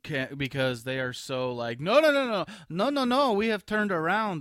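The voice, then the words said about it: Bad put-on German accent. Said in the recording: “That's my German accent. That was awful.”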